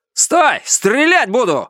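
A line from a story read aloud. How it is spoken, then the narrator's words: Shouted. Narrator (Russian): закричал я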